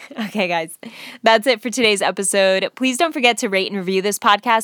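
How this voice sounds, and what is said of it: Deep, sick-sounding voice. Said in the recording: “I'm talking in this deep voice tonight because I am feeling sick. I feel like I have this head cold thing”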